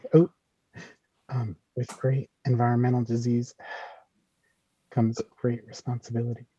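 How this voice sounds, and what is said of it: Breathy imitation of another person's voice. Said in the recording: “the best accent ever ... It's very breathy, so it's very breathy ... an entirely new impersonation”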